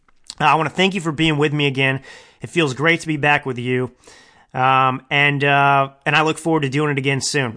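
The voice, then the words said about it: Weak, fading voice. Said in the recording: “I'm losing my voice here; it's getting weak.”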